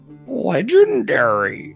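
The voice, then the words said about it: Poor imitation of another person's voice. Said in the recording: “That was a Neil Hamburger impression that went terribly wrong... I used to be able to do a Neil Hamburger impression, and now I'm just bastardizing his voice.”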